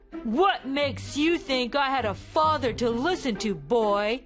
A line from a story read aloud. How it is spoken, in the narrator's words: snarled